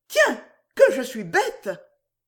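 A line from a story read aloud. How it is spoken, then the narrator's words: Sudden cry. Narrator (French): Tout à coup, Dieu s'écria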